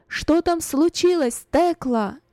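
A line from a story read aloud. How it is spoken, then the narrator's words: Loud question. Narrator (Russian): громко спросила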